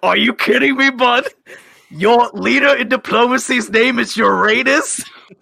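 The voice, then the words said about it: Shouting. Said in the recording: “I'm shouting”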